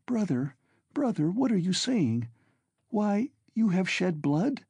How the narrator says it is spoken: cried Dounia in despair

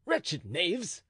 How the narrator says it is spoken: exclaimed the duke

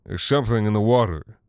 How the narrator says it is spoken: he was slurring

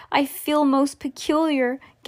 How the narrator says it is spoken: gasped Violet

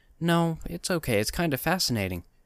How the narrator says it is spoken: she said with a slight laugh

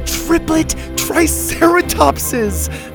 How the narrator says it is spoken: Zeta laughed

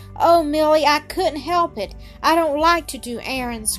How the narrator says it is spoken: cried Fan, bursting into tears again

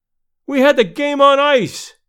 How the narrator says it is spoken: cried

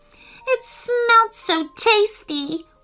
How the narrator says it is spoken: whimpered Sasha

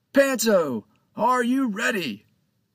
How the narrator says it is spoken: he shouted, regardless of the fact that Panto was standing right in front of him

